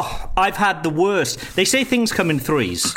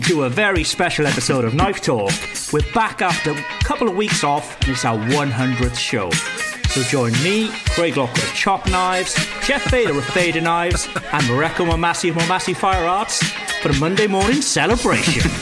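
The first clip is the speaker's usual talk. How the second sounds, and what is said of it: Announcer-style radio voice. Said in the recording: “That was my best radio voice too”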